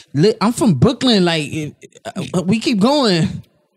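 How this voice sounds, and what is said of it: Weak attempt at Brooklyn accent. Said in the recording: “that wasn't even like a good Brooklyn accent ... I don't know what accent that was”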